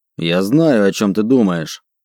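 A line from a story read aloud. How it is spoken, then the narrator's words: Growling troll. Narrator (Russian): прорычал тролль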